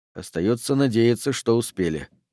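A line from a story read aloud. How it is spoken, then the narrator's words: Grumbling. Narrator (Russian): проворчал Пендергаст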